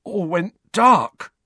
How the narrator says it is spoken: Dudley said hoarsely, shuddering

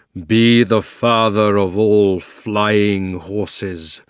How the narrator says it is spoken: roared Aslan in a voice that shook the ground

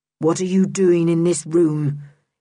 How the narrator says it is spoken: said roughly

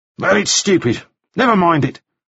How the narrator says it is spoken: Balfour snapped

